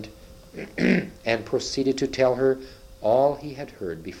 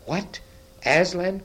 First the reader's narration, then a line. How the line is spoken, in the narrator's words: cried the queen